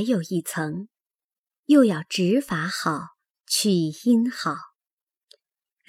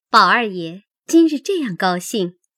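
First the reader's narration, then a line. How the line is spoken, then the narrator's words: Laughing. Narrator (Chinese): 紫娟笑说道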